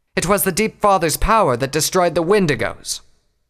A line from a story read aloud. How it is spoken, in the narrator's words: Clover said angrily